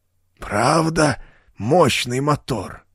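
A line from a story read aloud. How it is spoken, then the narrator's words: Hoarse wheeze. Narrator (Russian): прохрипел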